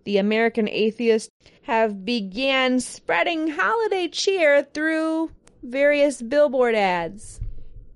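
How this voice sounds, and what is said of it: Sarcastic tone. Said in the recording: “that was sarcasm.”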